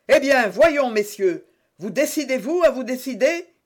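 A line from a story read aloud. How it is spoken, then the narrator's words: Shouted again, impatient. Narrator (French): cria pour la troisième fois Jussac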